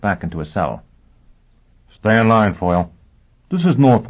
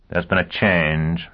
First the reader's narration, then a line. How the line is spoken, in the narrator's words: Bigenham said dryly